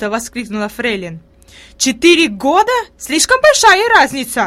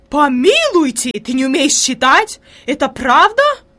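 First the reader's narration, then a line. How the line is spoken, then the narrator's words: Horrified exclamation. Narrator (Russian): воскликнула Фрейлин в ужасе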